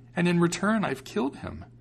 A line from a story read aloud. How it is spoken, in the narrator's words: exclaimed